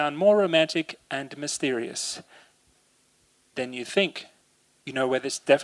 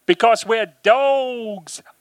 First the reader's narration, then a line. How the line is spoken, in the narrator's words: But they pronounce dogs as dogs, and they all howl afterwards